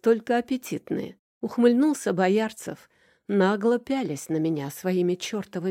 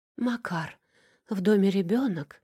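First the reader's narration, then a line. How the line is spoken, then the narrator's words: Moaning with furious desire. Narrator (Russian): простонала, умирая от распирающего душу яростного желания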